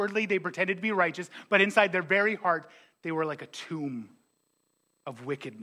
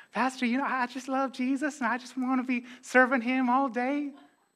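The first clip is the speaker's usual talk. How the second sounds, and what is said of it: Put-on Southern accent. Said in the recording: “that's a Southern accent. I got two accents, Irish and Southern.”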